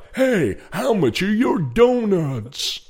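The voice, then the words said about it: Imitates a sports presenter voice. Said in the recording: “talks in the presenter's voice ... he always accentuates like he's presenting Sky Sports ... What accent are you doing? ... David Garrido. ... That's not David.”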